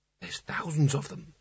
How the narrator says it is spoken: he whispered, his voice being sucked away and silenced by the massed ranks of books

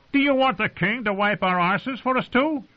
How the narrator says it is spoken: said Carter Pike angrily

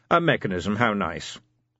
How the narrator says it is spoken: said flatly

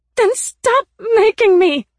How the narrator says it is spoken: I shouted

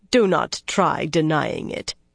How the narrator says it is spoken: in a scornful voice

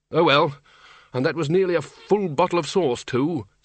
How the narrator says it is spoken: said the Arch-Chancellor sadly

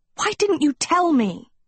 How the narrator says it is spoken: she cried

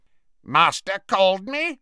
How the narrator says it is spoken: croaked Creature

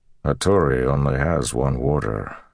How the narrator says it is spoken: the man said in his gravelly, soft voice

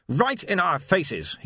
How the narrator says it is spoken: he snapped

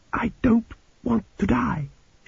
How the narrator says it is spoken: she said quietly

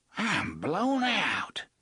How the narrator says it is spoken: Gasher gasped as they reached the door at the end of the tunnel

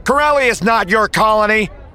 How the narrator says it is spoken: The occasional shout of

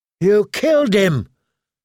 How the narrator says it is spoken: gasped

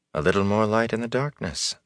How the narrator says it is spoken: the Aes Sedai murmured

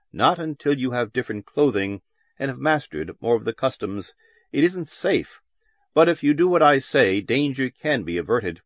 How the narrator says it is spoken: the youth had said firmly and quietly

